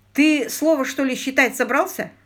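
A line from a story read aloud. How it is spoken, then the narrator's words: Mocking snort. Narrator (Russian): хмыкнул Погод Хор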